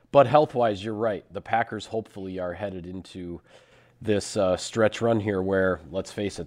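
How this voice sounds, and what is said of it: Hoarse, growly voice. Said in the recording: “my voice has not 100% recovered from the illness ... I feel better than I sound ... you just sound tougher. Like you're just like you're like a biker now ... I'm a growler”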